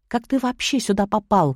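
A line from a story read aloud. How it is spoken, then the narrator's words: Attacking, almost whispering. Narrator (Russian): накинулась на него почти шепотом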